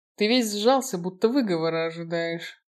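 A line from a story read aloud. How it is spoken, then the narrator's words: Snorting, amused. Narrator (Russian): хмыкнул Фостер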